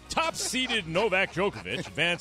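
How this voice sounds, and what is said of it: Sports announcer voice. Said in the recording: “I got to get my announcer voice on.”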